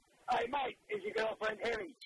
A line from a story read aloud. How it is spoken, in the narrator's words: he yelled out